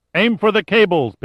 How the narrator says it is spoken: shouted

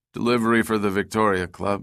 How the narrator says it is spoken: the driver said in a bored voice

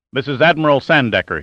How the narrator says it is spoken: snapped

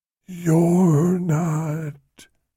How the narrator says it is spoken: whispered

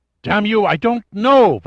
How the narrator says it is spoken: Varenne's voice was a despairing shout

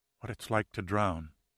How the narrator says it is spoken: whispered softly

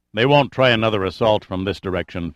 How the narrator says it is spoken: Findlay said

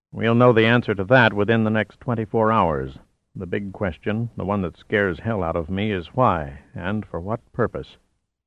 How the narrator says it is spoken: replied in an even, disquieting tone

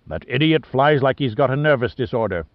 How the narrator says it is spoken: snapped Briscoe

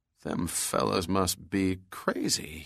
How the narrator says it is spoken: mumbled

